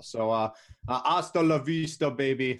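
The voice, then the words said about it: Bad Arnold Schwarzenegger impression. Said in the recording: “That was probably the worst Arnold Schwarzenegger impression ever.”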